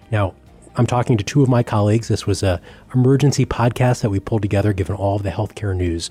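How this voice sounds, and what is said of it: Hoarse voice. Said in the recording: “forgive my hoarse voice. It was a long night and an early morning.”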